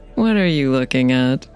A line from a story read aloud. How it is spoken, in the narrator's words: she asked with a little laugh